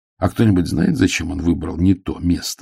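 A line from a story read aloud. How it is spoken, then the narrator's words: Plain. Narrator (Russian): спросил он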